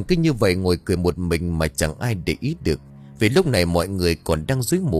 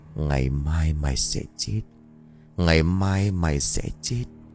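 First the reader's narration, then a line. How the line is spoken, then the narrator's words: Soft smirking whisper. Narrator (Vietnamese): miệng cười nhếch lên, khẽ nói không ai nghe thấy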